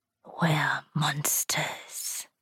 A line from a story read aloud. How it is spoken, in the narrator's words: he whispered